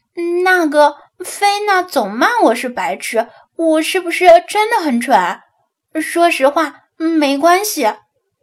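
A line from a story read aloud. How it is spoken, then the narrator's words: Timid quiet question. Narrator (Chinese): 他鼓起勇气，小声问道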